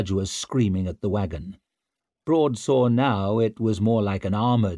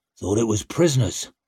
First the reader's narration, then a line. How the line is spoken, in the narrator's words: grunted Broad